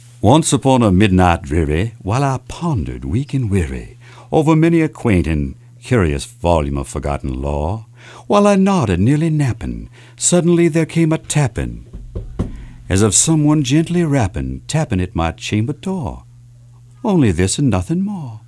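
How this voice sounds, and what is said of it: Soft Southern accent. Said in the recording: “he developed a soft Southern accent. At that time, that was common there in Virginia. So I'm sharing it that way.”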